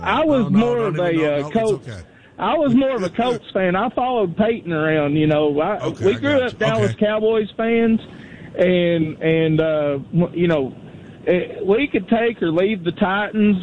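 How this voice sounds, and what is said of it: Strong distinctive accent. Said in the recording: “I love your accent... what an accent that guy's got”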